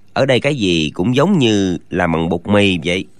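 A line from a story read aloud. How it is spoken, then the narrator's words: Bewildered uneasy mutter. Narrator (Vietnamese): Chàng thiếu niên chẳng hiểu ra sao, ngấm ngầm kinh hãi trong lòng, lẩm bẩm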